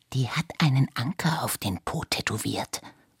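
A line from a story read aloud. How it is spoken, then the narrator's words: Whispered. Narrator (German): flüsterte Iris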